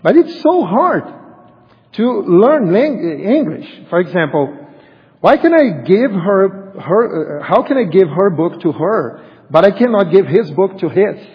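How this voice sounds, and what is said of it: Strong non-native English accent. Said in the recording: “I have a strong accent,”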